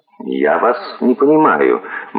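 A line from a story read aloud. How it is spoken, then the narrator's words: Gloomy. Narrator (Russian): мрачно сказал сэр Джулиус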